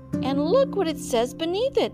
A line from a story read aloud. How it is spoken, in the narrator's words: cried a third